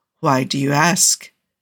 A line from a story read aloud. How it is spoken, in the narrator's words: Cougar kept his voice light, without accusation, but fear was beginning to gather in his chest